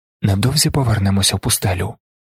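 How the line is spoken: Whispered. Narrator (Ukrainian): шепнув він

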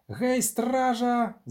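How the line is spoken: Shrieked. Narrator (Ukrainian): заверещав Фальвік

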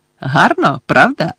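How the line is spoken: Joyful question. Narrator (Ukrainian): радісно спитала Луна

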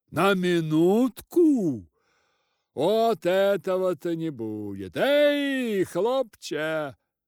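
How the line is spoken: Shouting stout host. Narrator (Russian): закричал толстый хозяин

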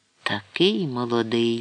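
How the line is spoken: Sighed, deeply moved. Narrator (Ukrainian): зітхнув глибоко вражений Фаон

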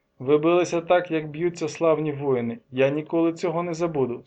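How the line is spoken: Plain. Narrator (Ukrainian): сказав я їм

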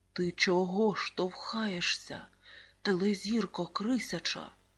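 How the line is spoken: Hiss. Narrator (Ukrainian): Зашипів Олег, сусід по парті

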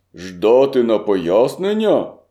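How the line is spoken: Farmer shouting. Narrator (Ukrainian): крикнув фармер

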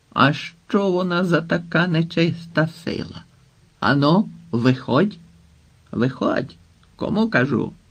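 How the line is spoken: Throat-clearing, menacing voice. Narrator (Ukrainian): відкашлявся і грізним голосом почав

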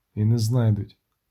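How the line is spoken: Plain. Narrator (Ukrainian): сказав відьмак

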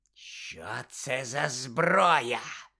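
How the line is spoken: Hoarse question. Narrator (Ukrainian): хрипло запитала Амбридж

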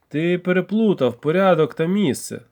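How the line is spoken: Plain. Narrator (Ukrainian): сказав я

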